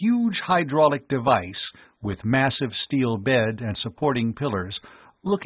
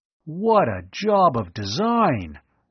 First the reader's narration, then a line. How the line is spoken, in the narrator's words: Tom exclaimed in awe